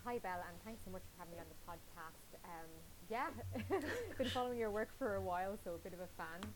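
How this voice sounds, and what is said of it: Irish accent. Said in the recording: “I'm from County Louth, so hopefully people can understand my accent. ... Oh, she's saying book wrong. It will come out for certain words.”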